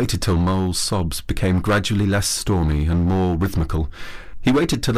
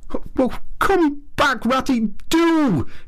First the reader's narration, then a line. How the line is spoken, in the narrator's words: cried